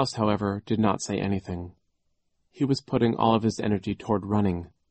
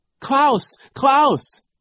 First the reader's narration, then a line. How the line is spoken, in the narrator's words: Isadora cried